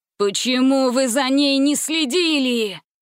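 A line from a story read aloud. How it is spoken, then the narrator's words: Shouting. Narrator (Russian): закричал он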